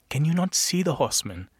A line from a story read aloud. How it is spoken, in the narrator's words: he pleaded